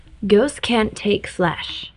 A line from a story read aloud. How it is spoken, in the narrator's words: Reshka had said